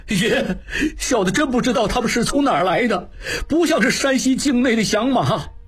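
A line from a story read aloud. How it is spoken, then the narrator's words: Crying. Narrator (Chinese): 金宝哭道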